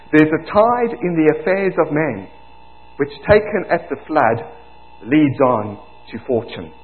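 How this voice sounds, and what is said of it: South African accent. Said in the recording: “You're going to get some Shakespeare, my apologies, in a South African accent”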